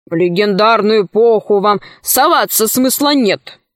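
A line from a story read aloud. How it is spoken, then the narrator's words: Grumbling. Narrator (Russian): ворчал он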